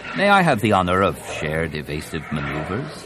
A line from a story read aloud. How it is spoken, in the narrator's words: Chuckling